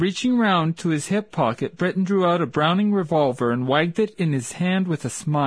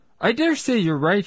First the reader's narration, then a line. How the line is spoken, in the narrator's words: he said